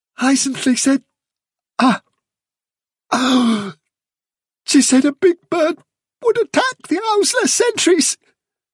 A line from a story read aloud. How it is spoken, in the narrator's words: gasped Nelfilter